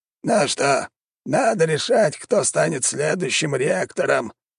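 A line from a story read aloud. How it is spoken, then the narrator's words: Creaky old man's voice. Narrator (Russian): проскрипел старый маг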